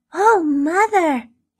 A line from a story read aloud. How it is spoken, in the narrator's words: cried